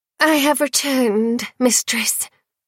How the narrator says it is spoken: the lass wheezed

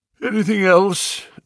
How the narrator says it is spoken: asked Holmes, yawning

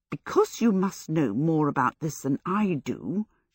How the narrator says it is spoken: she muttered at it

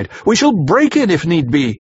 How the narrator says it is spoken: I cried

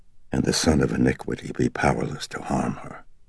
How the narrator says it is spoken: with a pounding heart breathed out the response

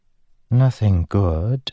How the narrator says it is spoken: she muttered

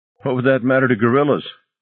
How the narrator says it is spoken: Elliot laughed

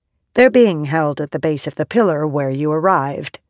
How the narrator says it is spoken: Eatl said

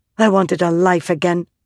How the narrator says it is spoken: Mother snapped

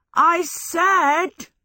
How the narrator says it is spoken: Michael shouted

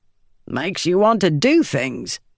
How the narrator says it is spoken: Gaz said with a grunt

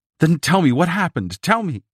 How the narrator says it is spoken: shrieked

